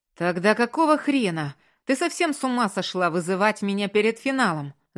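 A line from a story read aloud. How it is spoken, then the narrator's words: Yelling, overstrained and agitated. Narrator (Russian): Заорал от перенапряжения и волнения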